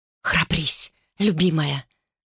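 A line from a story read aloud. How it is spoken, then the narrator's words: Whispering. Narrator (Russian): шептала Тунува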